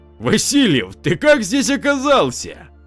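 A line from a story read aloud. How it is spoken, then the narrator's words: Joyful shout. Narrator (Russian): радостно закричал комиссар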